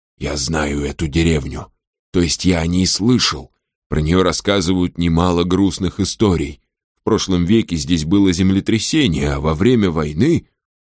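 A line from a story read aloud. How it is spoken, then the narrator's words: Whispered. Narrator (Russian): он прошептал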